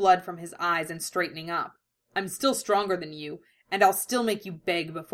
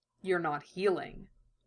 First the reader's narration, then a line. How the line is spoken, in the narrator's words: Roy said quietly